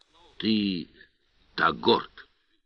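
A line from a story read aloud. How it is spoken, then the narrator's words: Whispered. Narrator (Russian): Шепотом произнес Олес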